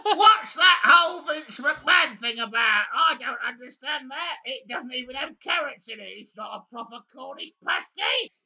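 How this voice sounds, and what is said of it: Terrible drunk-sounding impression of someone. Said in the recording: “my terrible drunk impression”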